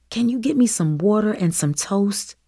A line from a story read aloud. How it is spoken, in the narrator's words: She asked, her voice scratchy and hoarse from sleep